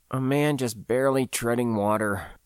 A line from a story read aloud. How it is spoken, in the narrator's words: I muttered, shaking my head